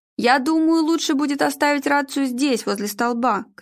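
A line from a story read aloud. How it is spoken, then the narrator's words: Shout. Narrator (Russian): крикнул Арнольд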